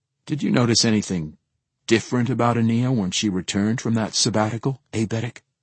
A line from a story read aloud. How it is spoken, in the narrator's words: attempting to sound calm, almost disinterested, and failing miserably, I said